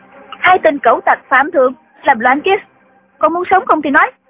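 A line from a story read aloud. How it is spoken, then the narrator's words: Strained. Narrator (Vietnamese): Nàng gắng gượng đứng dậy, nói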